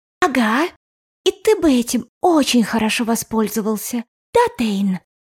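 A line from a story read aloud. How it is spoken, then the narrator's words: Whisper. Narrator (Russian): прошептала Грейс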